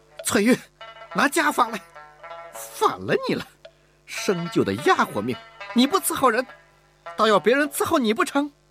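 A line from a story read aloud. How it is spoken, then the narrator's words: Exasperated shouting. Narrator (Chinese): 吴雅士忍无可忍地喊道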